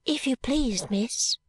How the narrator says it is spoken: said the little girl in a soft voice

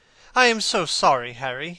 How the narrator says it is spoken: he cried

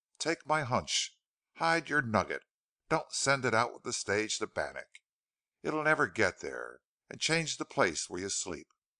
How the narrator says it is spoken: said Kells earnestly

